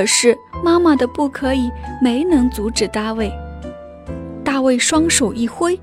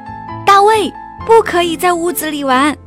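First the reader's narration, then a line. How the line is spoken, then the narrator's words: Loud hurried scolding. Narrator (Chinese): 妈妈赶忙大声制止大卫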